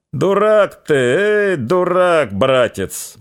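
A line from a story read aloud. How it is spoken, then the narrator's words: Deep booming voice. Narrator (Russian): басил Христоня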